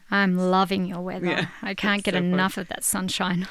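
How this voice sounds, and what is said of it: Australian accent. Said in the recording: “a little, you know, taste of the accent there, ... is from Australia”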